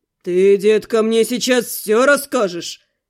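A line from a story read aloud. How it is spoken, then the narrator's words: Growled. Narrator (Russian): прорычал он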